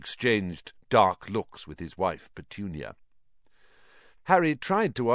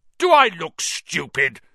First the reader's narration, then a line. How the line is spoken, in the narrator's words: snarled Uncle Vernon